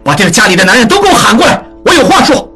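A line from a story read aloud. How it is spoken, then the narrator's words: Shout. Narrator (Chinese): 喊道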